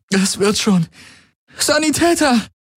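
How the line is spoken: Calling out. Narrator (German): rief sie

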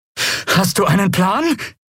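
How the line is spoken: Breathless shout over noise. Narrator (German): rief Lien atemlos über den Lärm hinweg

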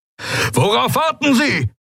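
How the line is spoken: Roaring. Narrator (German): brüllte Telios

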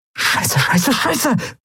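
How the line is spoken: Hissing. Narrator (German): zischte Endriel

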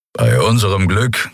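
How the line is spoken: Growl from behind. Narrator (German): knurrte Kero hinter ihnen

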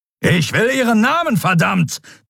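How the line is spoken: Thundered. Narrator (German): donnerte Telios

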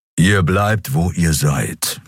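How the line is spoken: Growling. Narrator (German): knurrte er

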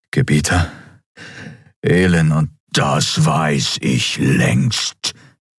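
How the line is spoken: Thundering emperor. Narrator (German): donnerte der Kaiser

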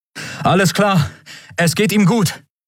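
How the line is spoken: Called out. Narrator (German): rief er Endriel und Miko zu

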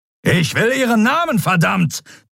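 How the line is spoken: Thundering. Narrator (German): donnerte Telios

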